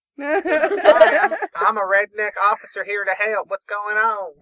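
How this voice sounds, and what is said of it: Put-on redneck accent. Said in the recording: “I can't do an English accent, man. So I have to stick with redneck”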